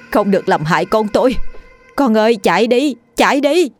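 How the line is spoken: Distant shout. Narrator (Vietnamese): Bên ngoài, giọng bà Thanh hét lên

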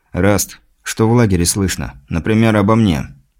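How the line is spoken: Quiet question. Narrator (Russian): грешник тихо спросил у охранника

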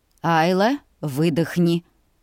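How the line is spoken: Calm reply. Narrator (Russian): Спокойно отреагировал отец

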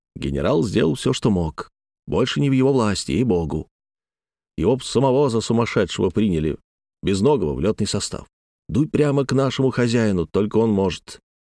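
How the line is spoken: Whispering. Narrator (Russian): зашептал

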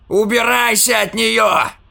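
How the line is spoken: Shouting. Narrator (Russian): закричал он

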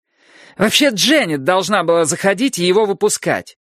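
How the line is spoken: Shouting over squealing. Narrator (Russian): прокричала она сквозь его повизгивание

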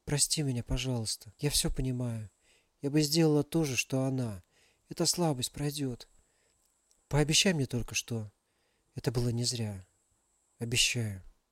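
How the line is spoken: Whisper. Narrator (Russian): прошептала Алиса

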